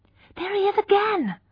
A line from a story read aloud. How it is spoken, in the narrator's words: cried Iz Hewitt, a pale girl with dark hair